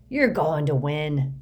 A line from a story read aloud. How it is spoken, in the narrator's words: Hagrid growled